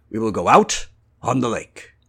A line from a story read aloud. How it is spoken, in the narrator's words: said the master firmly